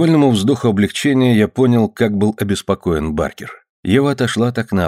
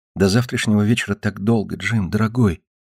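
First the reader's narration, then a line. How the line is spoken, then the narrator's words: Whisper. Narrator (Russian): прошептала Ева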